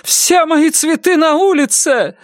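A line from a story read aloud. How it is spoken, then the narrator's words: Shouted. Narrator (Russian): закричала Ленор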